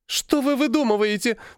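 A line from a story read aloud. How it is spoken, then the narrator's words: Sobbing woman. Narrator (Russian): всхлипнула продавщица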